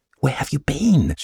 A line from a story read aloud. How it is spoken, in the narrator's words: she asked in a frightened whisper